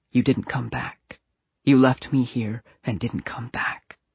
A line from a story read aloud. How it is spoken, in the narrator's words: whispering